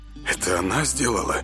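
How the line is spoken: Quiet surprised question. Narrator (Russian): с неподдельным удивлением тихо спросил Север

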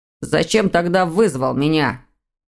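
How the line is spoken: Growl. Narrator (Russian): прорычал сын в ответ

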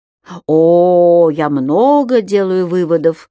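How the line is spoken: Meaningful drawl. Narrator (Russian): со значением протянул Арташес

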